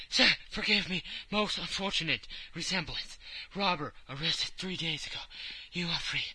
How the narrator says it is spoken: he stammered

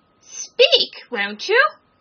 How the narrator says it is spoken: cried the king

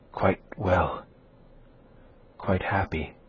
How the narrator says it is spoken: murmured Isabella

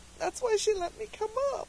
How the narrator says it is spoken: she sobbed

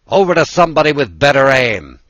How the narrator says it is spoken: the commander shouted

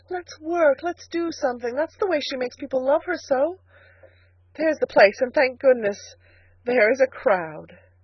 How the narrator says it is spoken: she cried

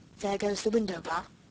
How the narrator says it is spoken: said the robber, softly

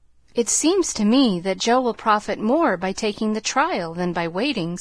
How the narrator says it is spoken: said Mrs

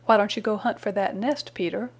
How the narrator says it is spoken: said he

